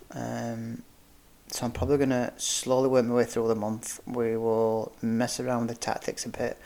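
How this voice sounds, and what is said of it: Deflated, subdued voice. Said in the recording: “as you can tell from my voice, that's sucked the wind out of us a little bit”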